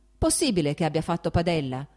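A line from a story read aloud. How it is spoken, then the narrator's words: Shouted. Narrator (Italian): gridò Stepan Arkadyč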